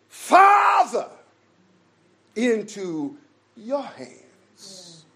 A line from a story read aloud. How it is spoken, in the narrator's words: he cried out loudly